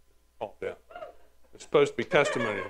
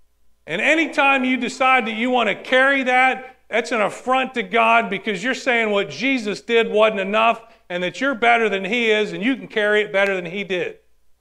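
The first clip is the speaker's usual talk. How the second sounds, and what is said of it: Yelling. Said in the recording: “I'm yelling”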